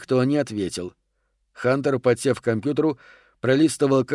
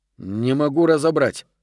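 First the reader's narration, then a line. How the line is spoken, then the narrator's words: Grumbling. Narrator (Russian): проворчал Гарсия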